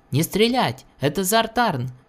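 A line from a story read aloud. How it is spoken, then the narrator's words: Officer shouting. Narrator (Russian): крикнул офицер, застреливший Вельквена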